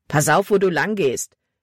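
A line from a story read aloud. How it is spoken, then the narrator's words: Rough voice. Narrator (German): sagte er rau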